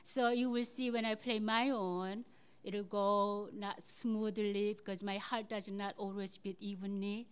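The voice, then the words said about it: Non-native English accent. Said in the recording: “I sing to cut through my accent”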